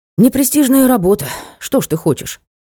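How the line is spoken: Sighing. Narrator (Russian): вздохнул белый некромант

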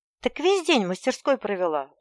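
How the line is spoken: Sad sigh. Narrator (Russian): вздохнула печально

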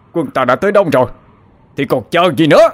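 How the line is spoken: Shout. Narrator (Vietnamese): Đoạn Trịnh Minh hét lên

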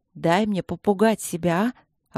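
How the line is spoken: Snapping then sighing. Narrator (Russian): огрызнулась я на внутреннюю ехидну и вздохнула

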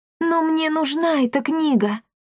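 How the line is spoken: Timid. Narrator (Russian): робко произнесла Дарина

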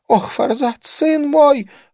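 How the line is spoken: Sobbing. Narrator (Russian): она всхлипнула

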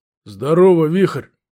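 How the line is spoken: Man grumbling. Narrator (Russian): буркнул мужик

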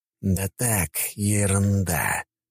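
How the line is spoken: Hissed. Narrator (Russian): прошипел

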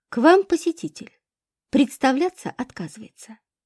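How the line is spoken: Dry elderly secretary. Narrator (Russian): Пожилая секретарша сухо сообщила

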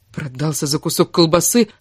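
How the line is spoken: Offended question. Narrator (Russian): обиженно спросила

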